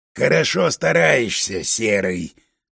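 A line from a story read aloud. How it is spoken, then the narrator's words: Growled. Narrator (Russian): рыкнул Соколов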